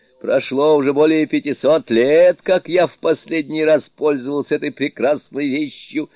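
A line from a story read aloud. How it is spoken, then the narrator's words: Laughing. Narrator (Russian): сказал, смеясь, Суну-кун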